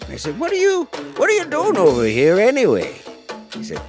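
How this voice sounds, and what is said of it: Usual voice. Nothing is said of it.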